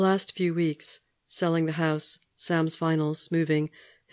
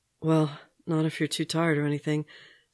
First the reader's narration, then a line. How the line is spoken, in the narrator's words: Steve said, breathlessly